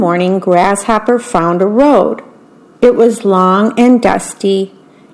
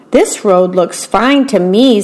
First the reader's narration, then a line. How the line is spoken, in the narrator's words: said Grasshopper